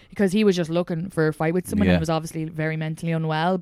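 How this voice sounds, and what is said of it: Irish accent. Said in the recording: “if he had heard my accent ... what he hated about Irish people, he would have been like, you Irish”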